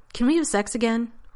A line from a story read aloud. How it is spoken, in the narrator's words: Rodney blurted finally